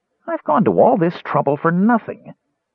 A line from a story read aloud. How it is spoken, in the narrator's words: the Kender thought irritably